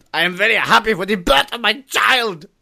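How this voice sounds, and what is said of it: Angry-sounding put-on German accent. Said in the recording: “even a happy German sounds angry. ... the German accent, everything will sound angry.”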